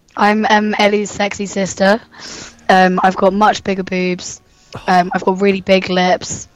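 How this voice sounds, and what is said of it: Croaky put-on sexy female voice. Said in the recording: “sexy voice lady ... I've got this kind of like croaky voice ... I've just got a really bad sore throat”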